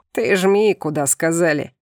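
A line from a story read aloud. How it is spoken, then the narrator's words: Laughing. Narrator (Russian): засмеялся миранец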